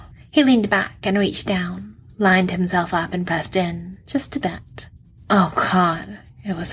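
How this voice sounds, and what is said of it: Usual voice. Nothing is said of it.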